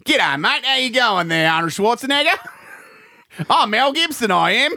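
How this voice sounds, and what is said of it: Mel Gibson impression, Australian accent. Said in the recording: “that funny Australian accent that he does ... Another bit of Aussie humor there, mate.”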